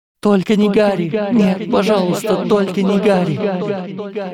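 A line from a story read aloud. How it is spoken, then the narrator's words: Woman screaming. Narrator (Russian): закричала женщина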